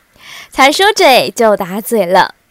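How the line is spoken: Old woman laughing. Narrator (Chinese): 刘姥姥自己也笑了，说道

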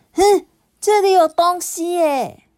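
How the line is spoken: Sudden cry. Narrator (Chinese): 突然啊，林果叫了起来

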